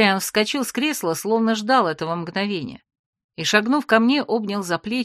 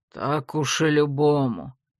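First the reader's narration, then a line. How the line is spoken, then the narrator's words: Grumbling. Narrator (Russian): пробурчал император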